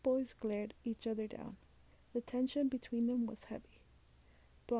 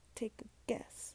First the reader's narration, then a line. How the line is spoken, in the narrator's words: Dexter replied coldly